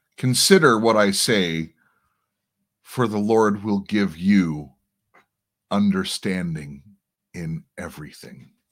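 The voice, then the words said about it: Very harsh, raspy voice. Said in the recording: “my voice is very harsh. I think it's from inhaling campfire smoke for a number of days.”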